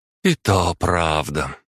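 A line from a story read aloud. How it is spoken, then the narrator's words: Heavy sigh, woman. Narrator (Russian): тяжело вздохнула женщина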